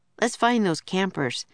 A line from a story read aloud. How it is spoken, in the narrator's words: said Jack, sighing